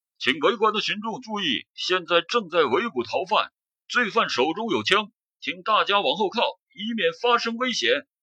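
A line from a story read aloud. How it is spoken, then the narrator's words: Distant repeated shouting. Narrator (Chinese): 从窗外不断传来喊话声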